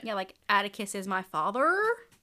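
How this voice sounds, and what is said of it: Childlike statement with questioning upspeak. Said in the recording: “everything she said, like even just statements, sounded like she was asking a question ... trying to sound like a 6-year-old ... Especially a Southern 6-year-old”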